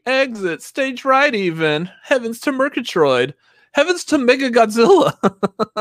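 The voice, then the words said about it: Cartoon character voice impression. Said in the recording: “my Pink Panther impression ... That's not Pink Panther. ... That's Snagglepuss.”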